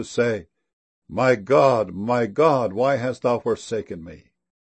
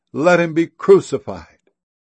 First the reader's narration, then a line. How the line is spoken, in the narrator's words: they cried out the more, saying